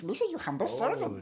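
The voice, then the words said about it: Jar Jar Binks impression. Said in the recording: “I do a good Jar Jar Binks”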